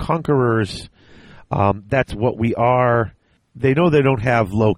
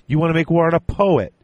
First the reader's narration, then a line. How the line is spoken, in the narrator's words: laughed Torgadon